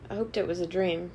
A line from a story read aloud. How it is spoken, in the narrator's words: Meg said